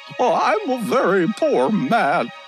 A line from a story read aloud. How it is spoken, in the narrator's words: he sobbed